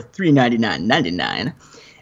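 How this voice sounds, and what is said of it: Bad impression of Lando's voice. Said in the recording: “That was my Lando impression, but it was horrible.”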